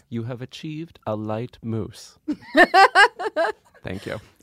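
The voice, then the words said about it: Impression of Mary Berry. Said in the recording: “my impression of her ... Mary Berry ... your British accent? ... Nope. I don't need the accent. ... He just embodied the character.”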